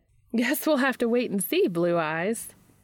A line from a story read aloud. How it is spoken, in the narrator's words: Charlie laughs